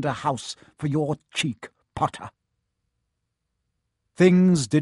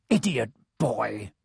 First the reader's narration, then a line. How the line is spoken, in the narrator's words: snarled Snape